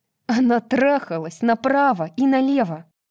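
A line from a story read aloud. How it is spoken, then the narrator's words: Angry snap. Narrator (Russian): сердито бросила Брайс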